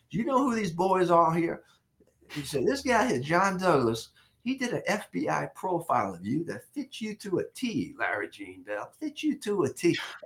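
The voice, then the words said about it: Southern drawl imitation. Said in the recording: “that draw, that Southern accent.”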